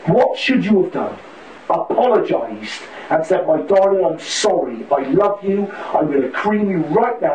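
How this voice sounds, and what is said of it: West Country English accent. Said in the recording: “he's got that beautiful West Country accent”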